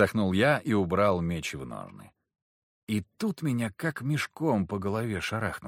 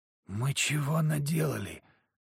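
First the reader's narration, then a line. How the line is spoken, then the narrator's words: Whisper. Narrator (Russian): прошептал Захар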